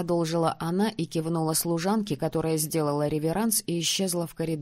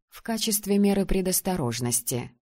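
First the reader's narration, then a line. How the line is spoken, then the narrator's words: Clarifying. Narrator (Russian): уточнила женщина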